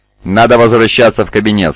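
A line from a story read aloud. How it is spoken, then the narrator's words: Plain. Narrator (Russian): сказал он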